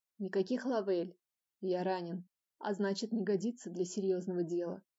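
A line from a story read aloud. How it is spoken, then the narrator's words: Slightly hoarse, in the ear. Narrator (Russian): произнес мне на ухо с легкой хрипотцой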